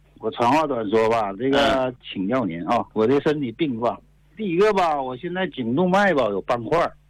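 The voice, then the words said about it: Liaoning northeastern Mandarin accent. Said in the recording (Chinese): “我听口音呢，咱是这个辽宁的”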